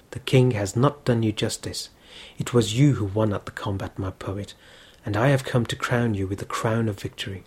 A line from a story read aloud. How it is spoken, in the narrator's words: The princess whispered in his ear